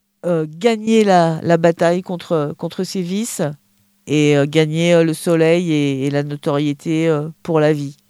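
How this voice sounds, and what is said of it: French with Marseille accent. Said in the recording (French): “Avec le petit accent marseillais.”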